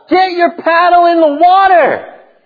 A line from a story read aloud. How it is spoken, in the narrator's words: I'm getting angry, and so I get so angry, I yell out